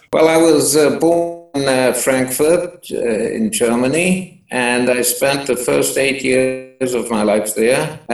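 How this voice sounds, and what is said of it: Foreign accent. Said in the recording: “You weren't born in Israel, as I think your accent will attest.”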